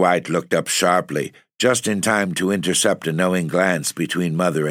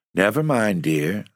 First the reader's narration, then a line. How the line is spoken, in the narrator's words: said his wife soothingly